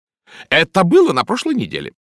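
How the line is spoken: Snapping. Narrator (Russian): огрызнулась миссис Николетис

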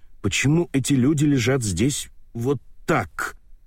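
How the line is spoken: Angry question. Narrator (Russian): сердито спрашивает София

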